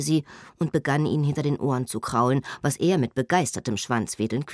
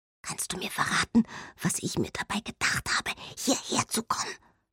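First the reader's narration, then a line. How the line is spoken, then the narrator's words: Whisper to a dog. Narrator (German): flüsterte sie dem Hund zu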